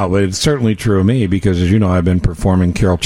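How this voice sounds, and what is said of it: Usual voice. Nothing is said of it.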